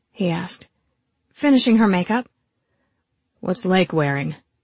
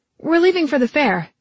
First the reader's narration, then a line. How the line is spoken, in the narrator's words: I blurted